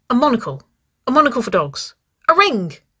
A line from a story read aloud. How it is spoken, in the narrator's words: Waverley squeaked